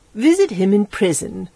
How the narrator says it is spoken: she said indignantly

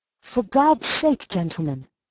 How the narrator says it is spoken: gasped the verger

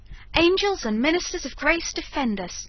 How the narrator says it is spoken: exclaimed George

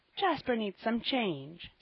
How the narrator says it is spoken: said Sister Marion kindly

